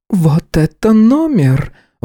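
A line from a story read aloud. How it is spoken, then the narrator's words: Breathless exhale. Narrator (Russian): выдохнула Джонсон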